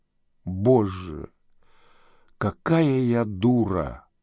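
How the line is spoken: Whisper. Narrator (Russian): прошептала

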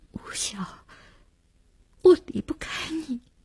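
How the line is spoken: Choked with tears. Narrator (Chinese): 只哽咽了一句

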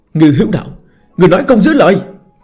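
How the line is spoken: Roaring. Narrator (Vietnamese): Một người gầm thét

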